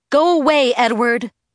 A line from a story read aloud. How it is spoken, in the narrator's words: I yelled at him